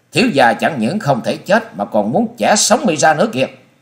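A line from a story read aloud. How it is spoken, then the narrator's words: Hissing shout. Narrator (Vietnamese): Chàng rít giọng thét lên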